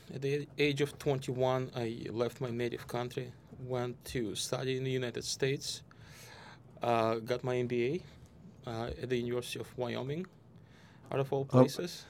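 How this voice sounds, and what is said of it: Russian accent. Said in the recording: “your accent ... I was born in Moscow in Russia”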